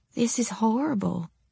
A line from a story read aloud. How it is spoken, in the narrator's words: said, voice quavering